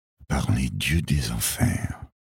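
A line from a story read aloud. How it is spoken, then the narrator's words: Murmured. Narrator (French): murmura-t-il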